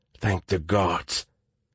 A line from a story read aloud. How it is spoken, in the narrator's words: Venkat put his head in his hands and whispered